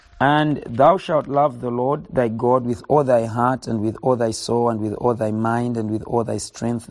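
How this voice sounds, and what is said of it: Hoarse voice. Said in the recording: “my voice is quite hoarse.”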